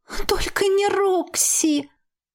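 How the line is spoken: Moaning. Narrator (Russian): Одновременно со мной простонала Ева

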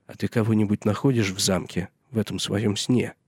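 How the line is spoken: Plain. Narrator (Russian): спросил Сэм

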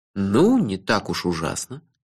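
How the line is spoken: Soft objection. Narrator (Russian): мягко возразил

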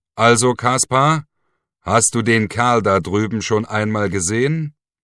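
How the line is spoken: Loud question. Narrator (German): Der Vogt räusperte sich, holte tief Luft und fragte mit lauter Stimme

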